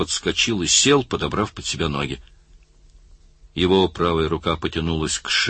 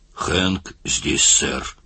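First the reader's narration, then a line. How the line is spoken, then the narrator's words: Hoarse voice. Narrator (Russian): хрипло сказал он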